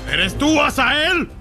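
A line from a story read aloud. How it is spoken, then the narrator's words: Shouting. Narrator (Spanish): le gritó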